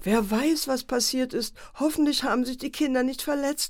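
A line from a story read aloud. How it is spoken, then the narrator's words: Mother wailing. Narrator (German): jammerte die Mutter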